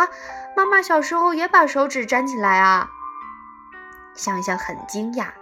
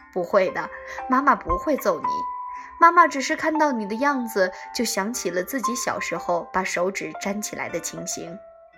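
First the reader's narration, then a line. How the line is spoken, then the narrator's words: Gentle mother. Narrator (Chinese): 妈妈……温柔地说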